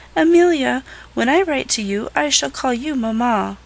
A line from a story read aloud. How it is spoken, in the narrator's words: the orphan little Laura Martin said, looking up in her face wistfully